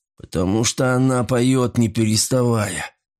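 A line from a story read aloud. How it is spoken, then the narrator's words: Indifferent tone. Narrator (Russian): сказал безразличным тоном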